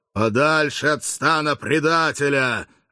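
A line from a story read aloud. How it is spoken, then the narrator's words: Huge fearsome voice, perfectly calm. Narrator (Russian): отвечал германец своим страшным голосищем с полной невозмутимостью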